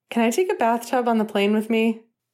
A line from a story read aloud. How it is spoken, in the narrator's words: Remus laughing